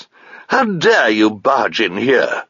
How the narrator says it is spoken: she was pronouncing very pompously

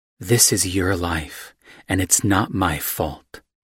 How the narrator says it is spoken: she said, in a hard but low voice

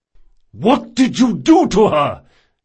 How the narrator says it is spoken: bellowed Reynard

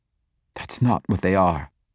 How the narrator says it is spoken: Asha said coldly

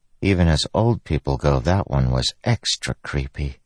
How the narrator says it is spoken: she said softly

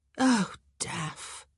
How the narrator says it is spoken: she sighed

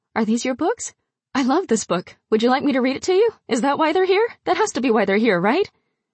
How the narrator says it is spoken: I was speaking too quickly

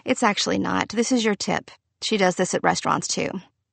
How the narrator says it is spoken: Victor sighed

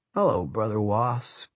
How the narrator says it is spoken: Matt said lazily

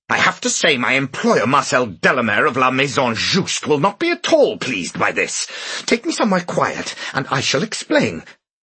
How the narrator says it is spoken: the young man's voice saying angrily

